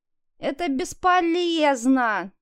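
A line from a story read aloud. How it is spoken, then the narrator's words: Whimpering, panicky. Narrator (Russian): захныкала Лиза, начиная паниковать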